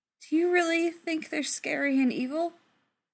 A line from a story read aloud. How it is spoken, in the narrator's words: Brendan asked anxiously